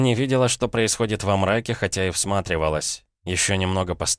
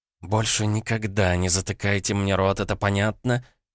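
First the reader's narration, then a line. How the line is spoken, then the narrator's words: Hissed. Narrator (Russian): зашипела Визави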